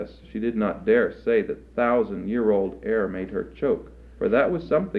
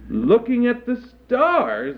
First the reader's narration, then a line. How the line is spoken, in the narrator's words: exclaimed the troll mother